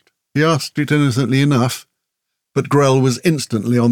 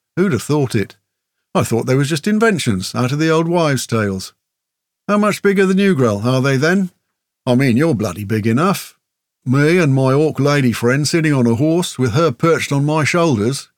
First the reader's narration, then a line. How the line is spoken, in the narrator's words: Grell said